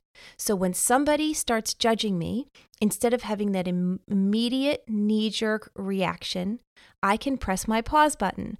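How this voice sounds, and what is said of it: New York accent. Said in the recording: “wow, my New York accent really just came out there”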